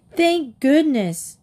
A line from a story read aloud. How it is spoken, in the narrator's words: Sue cried